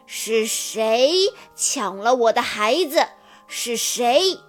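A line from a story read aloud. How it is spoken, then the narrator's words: Furious roaring. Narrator (Chinese): 女王正在森林里四处寻找丢失的孩子，她愤怒地咆哮着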